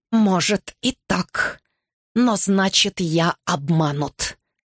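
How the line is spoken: Hissed. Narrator (Russian): прошипел он

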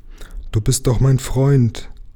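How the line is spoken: Plain. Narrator (German): sagte der Vogel

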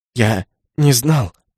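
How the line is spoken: Barely squeezed out. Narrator (Russian): еле выдавил Наоки

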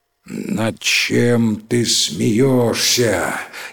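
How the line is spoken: Terrifying voice. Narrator (Russian): спросил таким страшным голосом

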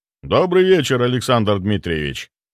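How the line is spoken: Deep bass voice. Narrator (Russian): пробасил он

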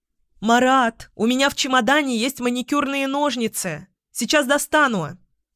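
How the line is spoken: Shout. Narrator (Russian): крикнула она

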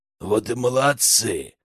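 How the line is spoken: Wheezing skull. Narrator (Russian): прохрипел череп

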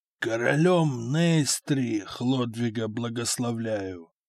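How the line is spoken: Weak frail voice. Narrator (Russian): слабым голосом сказал исхудавший Дагоберт

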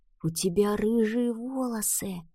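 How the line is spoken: Child's whisper. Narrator (Russian): прошептал мальчик

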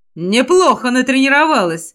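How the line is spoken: Snort. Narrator (Russian): хмыкнул Тешар

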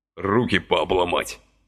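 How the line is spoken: Grumbling. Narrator (Russian): проворчал он

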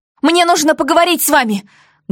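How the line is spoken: Loud shout. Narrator (Russian): громко крикнула я полицейскому

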